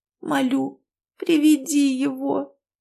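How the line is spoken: Moaning plea. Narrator (Russian): вновь простонала Ирина

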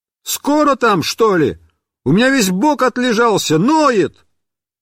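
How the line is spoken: Muffled yelling from barrel. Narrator (Russian): я заорал из бочки

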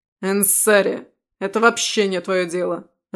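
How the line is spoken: Irritated. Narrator (Russian): раздраженно заявил боевик

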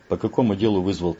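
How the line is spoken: Plain. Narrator (Russian): спросил Сенцов

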